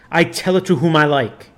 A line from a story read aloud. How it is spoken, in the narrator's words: snarled the evil one